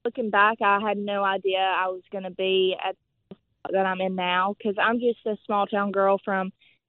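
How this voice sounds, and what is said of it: Southern American accent. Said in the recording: “what sells me up here is my accent and the little Southern girl”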